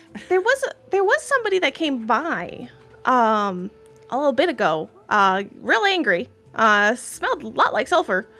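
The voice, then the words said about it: Strange character voice, new accent. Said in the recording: “Strange voice here. ... New accent”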